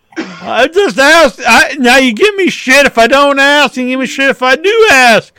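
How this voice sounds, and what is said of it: Screaming, strained voice. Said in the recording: “I'm losing my voice because I'm screaming too much. ... Stop screaming”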